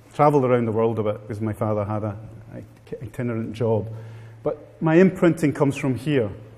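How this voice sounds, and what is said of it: Strong Italian accent. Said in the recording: “you can tell by my strong Italian accent”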